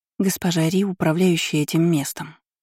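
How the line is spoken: Quiet prompting. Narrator (Russian): тихо подсказала Зея

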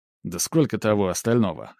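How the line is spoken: Skeptical snort. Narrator (Russian): хмыкнул Мак

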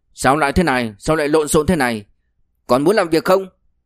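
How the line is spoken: Loud, after a cough. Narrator (Vietnamese): Cổ Chân Dương dùng sức ho khan một tiếng, lớn tiếng nói

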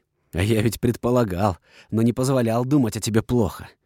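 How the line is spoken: Menacing hiss. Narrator (Russian): прошипел, недобро глянув

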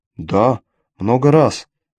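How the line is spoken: Calm reply. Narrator (Russian): спокойно ответила Кале

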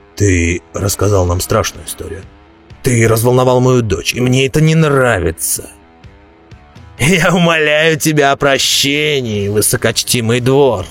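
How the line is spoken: Cold. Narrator (Russian): Дворф холодно сказал Роди

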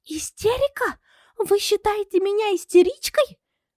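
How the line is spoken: Shocked exclamation, theatrical whisper. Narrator (Russian): Пораженно воскликнула она, изобразила глубокое потрясение и прошептала

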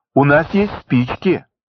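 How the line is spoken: Joyful announcement. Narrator (Russian): радостно сообщил Хведька

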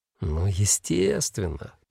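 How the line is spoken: Purring. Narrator (Russian): промурлыкал Мышелов

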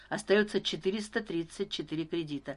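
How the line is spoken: Plain. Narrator (Russian): сказал Старпом

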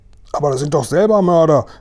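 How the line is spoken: Called out, commander. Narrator (German): rief der Oberkommandierende der Landstreitkräfte

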